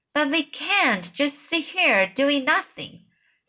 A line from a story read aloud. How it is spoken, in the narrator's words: Sophie cried